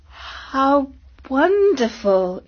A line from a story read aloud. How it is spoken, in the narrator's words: exclaimed Katie